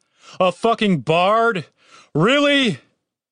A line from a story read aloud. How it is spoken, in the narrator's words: He turned to the sky and shouted